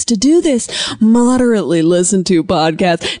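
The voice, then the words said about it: Put-on radio announcer voice. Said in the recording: “putting on my radio voice”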